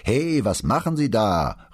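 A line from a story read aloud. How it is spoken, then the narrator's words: Calling out. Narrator (German): rief der Mann Brunetti zu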